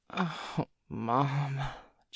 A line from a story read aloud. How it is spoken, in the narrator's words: Joey groaned